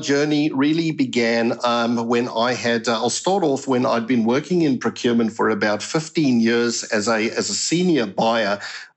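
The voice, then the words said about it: South African accent. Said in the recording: “you can hear from my accent, I'm originally from South Africa”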